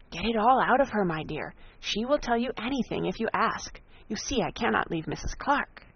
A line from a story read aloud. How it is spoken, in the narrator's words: Jennings immediately whispered to Eleanor